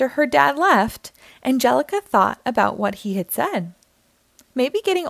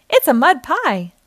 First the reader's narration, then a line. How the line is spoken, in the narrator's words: Tommy exclaimed